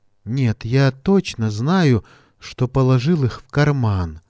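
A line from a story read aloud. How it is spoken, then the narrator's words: Bitter sigh. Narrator (Russian): Горько вздохнул Равиль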